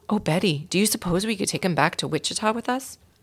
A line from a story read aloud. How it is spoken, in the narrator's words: asked Mary Lou